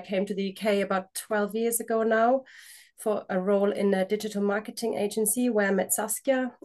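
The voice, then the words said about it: German accent. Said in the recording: “For anyone who's trying to figure out my accent, I'm German.”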